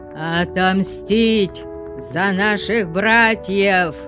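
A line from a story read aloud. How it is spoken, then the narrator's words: Crowd roaring. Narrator (Russian): взревела толпа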